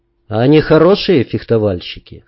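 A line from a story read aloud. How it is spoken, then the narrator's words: Plain. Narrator (Russian): спросил я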